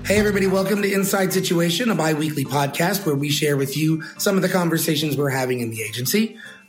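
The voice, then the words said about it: Slightly hoarse, froggy voice. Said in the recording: “I've got a little bit of a frog in my throat this week”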